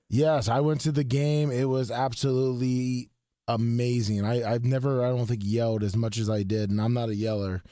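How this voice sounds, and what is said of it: Hoarse, strained voice. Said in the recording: “You're losing your voice though, doing that.”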